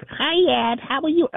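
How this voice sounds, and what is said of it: Childlike baby voice. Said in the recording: “she would like use this baby voice.”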